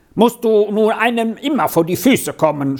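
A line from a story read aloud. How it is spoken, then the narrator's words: Sudden shout. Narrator (German): schrie Heini auf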